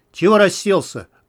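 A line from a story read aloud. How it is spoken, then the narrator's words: Gruff barked shout. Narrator (Russian): гаркнул зверь на Ярослава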